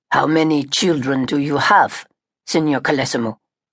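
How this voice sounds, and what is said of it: Heavy German accent, gravelly tired voice. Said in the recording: “He had a heavy accent, but his Italian was surprisingly good. His voice was gravelly, and he sounded tired”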